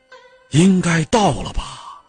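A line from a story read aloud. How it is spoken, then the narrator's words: Low voice. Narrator (Chinese): 游间低声说了一句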